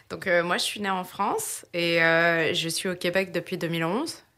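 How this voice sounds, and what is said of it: French accent, not Québécois. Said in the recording (French): “De par ton accent, tu n'es pas nécessairement native de Québec”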